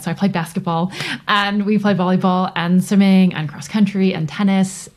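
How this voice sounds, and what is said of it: North American accent. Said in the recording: “As you can tell from my accent, I grew up in North America.”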